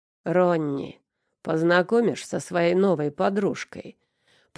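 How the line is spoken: Deep smoky voice behind. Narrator (Russian): пробасил прокуренный голос сзади

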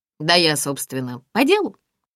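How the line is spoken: Cough, forced deep voice. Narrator (Russian): кашлянул Гриша, стараясь говорить басом

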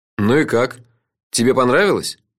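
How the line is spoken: Gloomy question. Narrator (Russian): мрачно осведомился я у самого Фила

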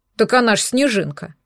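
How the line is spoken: Snorting remark. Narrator (Russian): хмыкнул Егорка

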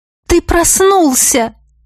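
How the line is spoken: Young woman exclaiming. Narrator (Russian): воскликнула беловолосая девушка

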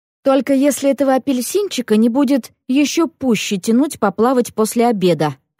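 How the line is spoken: Plain. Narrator (Russian): ответила она

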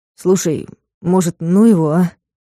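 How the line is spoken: Uncertain drawl. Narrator (Russian): неуверенно протянул Вадик

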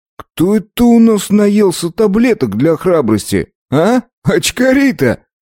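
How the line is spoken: Loud laughter. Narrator (Russian): расхохотался

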